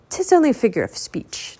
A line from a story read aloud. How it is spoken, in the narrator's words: Teddy said quickly